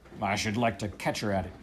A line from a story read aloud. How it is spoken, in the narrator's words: growled the captain